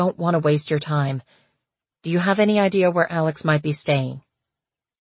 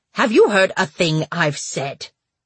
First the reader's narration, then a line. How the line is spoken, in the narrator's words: Paige snapped